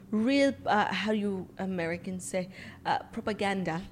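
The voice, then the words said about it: Inconsistent put-on foreign accent. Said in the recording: “I don't know why my accent keeps going in and out.”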